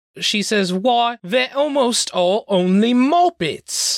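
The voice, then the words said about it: Put-on Cockney accent. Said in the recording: “has a Cockney accent”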